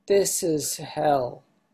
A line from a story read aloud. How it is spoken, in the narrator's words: Hakuin calmly retorted